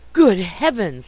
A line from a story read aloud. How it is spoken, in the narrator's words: gasped